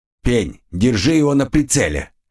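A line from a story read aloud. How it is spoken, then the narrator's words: Curt, abrupt order. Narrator (Russian): отрывисто бросил самый солидный из компании длинный худой жлобяра с ником Асмодей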